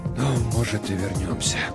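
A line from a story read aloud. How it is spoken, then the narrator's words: Barely audible whisper. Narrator (Russian): прошептал он так тихо, что я едва расслышал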